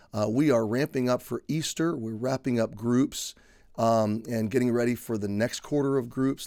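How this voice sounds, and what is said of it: Congested, strained voice. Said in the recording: “You can tell my voice is still on edge a little bit ... you can tell I'm a little congested”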